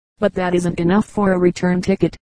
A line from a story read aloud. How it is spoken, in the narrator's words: she faced her husband scornfully